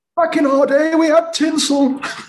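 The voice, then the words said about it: Strong Yorkshire accent. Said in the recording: “That is the most Yorkshire I've ever heard you. By the way, ... is Yorkshire.”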